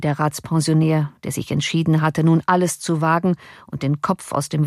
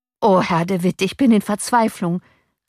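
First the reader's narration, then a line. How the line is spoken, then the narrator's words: Desperate call. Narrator (German): rief der Torwart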